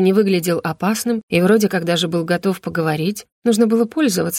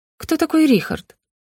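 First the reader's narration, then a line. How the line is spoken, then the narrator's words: Calmer inquiring. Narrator (Russian): поинтересовалась Роза уже более спокойно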